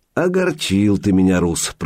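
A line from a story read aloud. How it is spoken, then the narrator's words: Grumbled. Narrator (Russian): проворчал он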